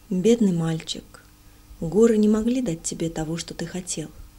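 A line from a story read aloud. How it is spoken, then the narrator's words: Gentle, comforting. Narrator (Russian): говорил ласково, пытаясь утешить меня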